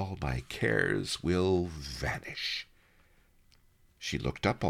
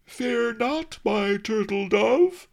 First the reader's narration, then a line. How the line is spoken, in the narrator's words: some lout bellowed